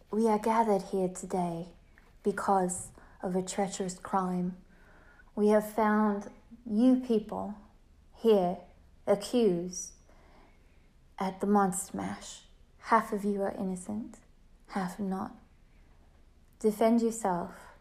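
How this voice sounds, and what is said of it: Dramatic narrator voice. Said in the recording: “my narrator voice”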